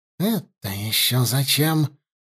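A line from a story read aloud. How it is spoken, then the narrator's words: Muttering. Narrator (Russian): пробормотала ситха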